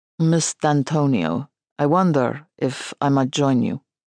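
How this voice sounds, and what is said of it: Deep Russian accent. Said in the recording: “A bear of a man in a singlet and speedos ... Russian accent.”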